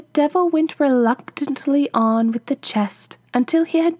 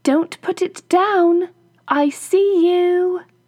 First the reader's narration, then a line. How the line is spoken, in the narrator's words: his wife called out to him